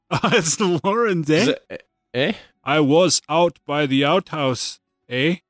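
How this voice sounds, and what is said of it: Put-on Canadian accent. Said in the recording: “That's my Canadian accent.”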